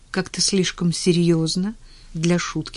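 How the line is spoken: Plain. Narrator (Russian): спросила она

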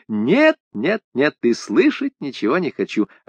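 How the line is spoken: Laughing. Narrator (Russian): засмеялась

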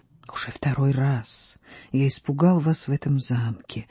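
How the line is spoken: Low quiet whisper. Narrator (Russian): шепнул низким тихим голосом

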